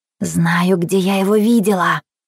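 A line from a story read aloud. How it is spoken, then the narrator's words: Whispering. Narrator (Russian): зашептала Анжела своему напарнику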